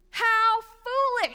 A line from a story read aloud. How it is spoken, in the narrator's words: Samuel exclaimed